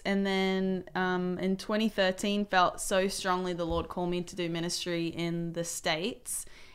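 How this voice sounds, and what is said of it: Non-Southern foreign accent. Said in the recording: “that ain't a southern accent”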